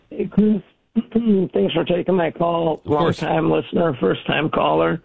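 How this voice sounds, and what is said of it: Hoarse, worn-out voice. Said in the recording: “I kind of lost my voice from all the yelling at the game.”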